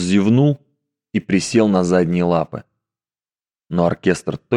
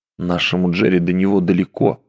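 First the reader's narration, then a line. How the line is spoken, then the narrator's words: Whisper. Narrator (Russian): прошептал ей Гарли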